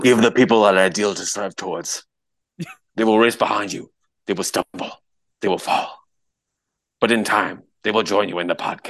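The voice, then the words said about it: Imitates another person's voice. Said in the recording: “my Russell Crowe impression”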